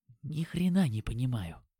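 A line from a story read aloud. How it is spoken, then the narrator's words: Whisper. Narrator (Russian): шепнул нам Димон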